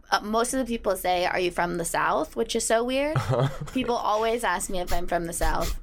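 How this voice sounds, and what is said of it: Creaky voice, vocal fry. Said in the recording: “You have creaky voice. ... vocal fry. ... people know it as vocal fry.”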